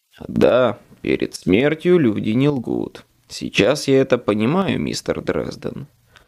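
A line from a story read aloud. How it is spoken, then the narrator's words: Dry reply. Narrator (Russian): сухо ответил Марконы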